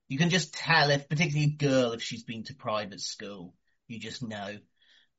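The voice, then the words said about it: Middle-class British accent. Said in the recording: “from your accent, you sound pretty middle class.”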